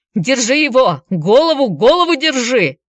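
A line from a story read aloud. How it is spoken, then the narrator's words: Yelling. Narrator (Russian): вопил коротышка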